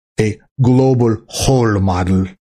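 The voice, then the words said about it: Impression of Klaus Schwab. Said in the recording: “I'll do my best impersonation of them.”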